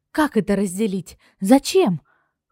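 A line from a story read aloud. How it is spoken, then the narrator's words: Exclamation in chorus. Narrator (Russian): хором воскликнули мы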